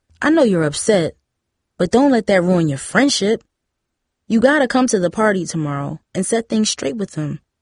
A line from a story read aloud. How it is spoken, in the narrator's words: Tara said